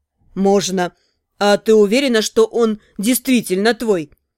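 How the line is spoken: Smirking snort. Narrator (Russian): хмыкнул блондин

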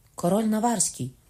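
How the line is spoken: Cry. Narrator (Ukrainian): скрикнула

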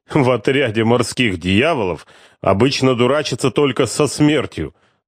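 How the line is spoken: Tender laughter. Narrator (Russian): умиленно рассмеялся он

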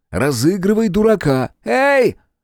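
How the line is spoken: Piercing shrill voice. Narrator (Russian): резанул по ушам визгливый голос

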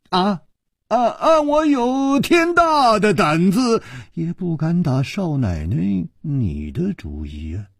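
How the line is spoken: Sighing. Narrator (Chinese): 楚留香叹了一口气说

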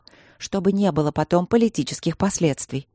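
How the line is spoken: Quiet addition. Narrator (Russian): тихо добавила старшая Рудлок

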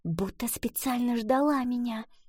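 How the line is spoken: Whisper. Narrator (Russian): прошептала она

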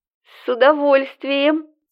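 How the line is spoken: Ecstatic shriek. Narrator (Russian): Завопила восторженно Светка

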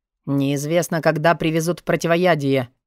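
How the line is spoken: Despairing deep bass. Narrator (Russian): пробасил в отчаянии Джестер

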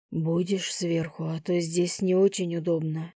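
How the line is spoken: Breathed out. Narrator (Russian): выдохнул Лев

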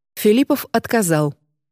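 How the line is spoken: Plain. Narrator (Russian): сказала она

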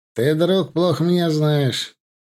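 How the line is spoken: Smug snort. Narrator (Russian): самодовольно хмыкнул Симонов

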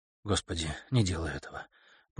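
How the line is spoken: Whisper. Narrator (Russian): прошептала Каролина

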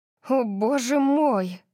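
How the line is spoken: Stunned breathless exhale. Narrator (Russian): Выдохнула я, совершенно ошеломленная жестокостью

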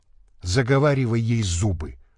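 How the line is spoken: Whisper. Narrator (Russian): шепнул Дальновид

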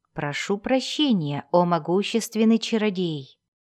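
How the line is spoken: Calm voice. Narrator (Russian): спокойно сказал Дзирт

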